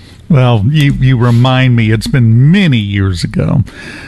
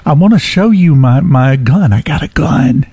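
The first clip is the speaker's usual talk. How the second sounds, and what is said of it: Whispered line. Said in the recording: “I have to whisper that”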